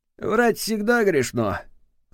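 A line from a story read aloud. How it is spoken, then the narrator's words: Snorting remark. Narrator (Russian): хмыкнул ответственный секретарь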